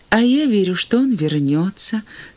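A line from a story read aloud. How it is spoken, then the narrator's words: Calm. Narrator (Russian): спокойно отвечала вторая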